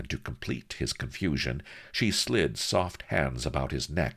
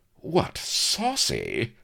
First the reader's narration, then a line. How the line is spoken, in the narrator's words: she stared, laughed sharply